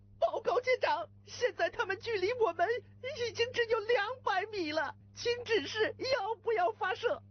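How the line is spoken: Loud. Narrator (Chinese): 他大声说道

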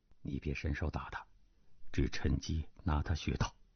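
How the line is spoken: Whisper in the ear. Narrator (Chinese): 段正淳 低声在他耳边道

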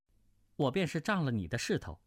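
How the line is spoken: Cold. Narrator (Chinese): 穆婉清冷冷的道

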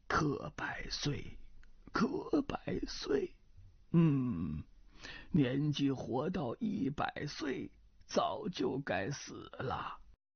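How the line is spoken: Hoarse old man's voice. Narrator (Chinese): 老人 没九十也有八十岁 嘶哑着嗓子说道

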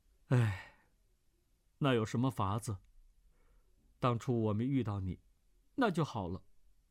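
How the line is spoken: Sighing. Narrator (Chinese): 段誉叹道

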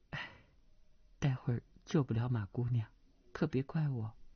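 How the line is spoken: Soft sigh, low voice. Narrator (Chinese): 程灵素轻轻叹了口气，低声道

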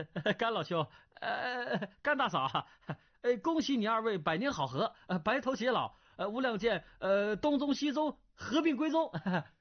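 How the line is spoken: Wry. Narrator (Chinese): 段玉苦笑道

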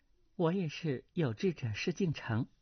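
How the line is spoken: Woman, soft laugh, gentle. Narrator (Chinese): 那女子轻轻一笑，柔声道

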